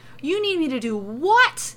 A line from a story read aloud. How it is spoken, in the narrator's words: he wails